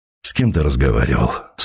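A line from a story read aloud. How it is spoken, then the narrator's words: Tired father asking. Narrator (Russian): спросил отец устало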